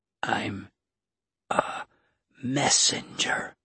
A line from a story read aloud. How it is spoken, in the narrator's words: he said, his voice weak